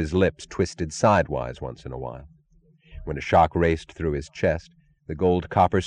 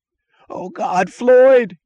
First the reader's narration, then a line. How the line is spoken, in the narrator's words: he screamed